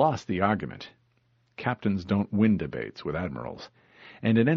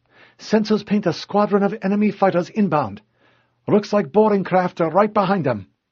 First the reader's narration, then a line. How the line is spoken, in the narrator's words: Hikawa piped up